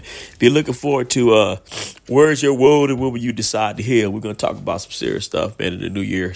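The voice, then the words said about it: Rough, unwell-sounding voice. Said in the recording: “you sound terrible. ... my allergies. I'm fighting allergies”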